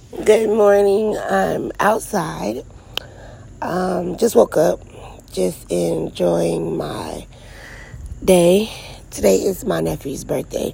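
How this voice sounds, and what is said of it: Slightly raspy voice. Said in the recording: “Sorry about the voice, guys. I'm kind of a little bit raspy. ... I just, you know, yelling, screaming, shouting.”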